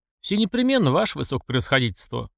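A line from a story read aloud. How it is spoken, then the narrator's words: Smirking snort. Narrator (Russian): хмыкнул один из охранителей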